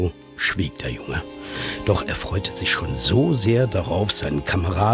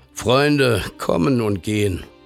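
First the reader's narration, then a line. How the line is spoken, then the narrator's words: Tired father. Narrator (German): Der Vater blickte müde auf und sprach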